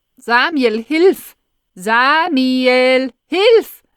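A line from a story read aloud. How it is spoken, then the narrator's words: Desperate scream over loudspeaker. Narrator (German): schreit verzweifelt aus dem Lautsprecher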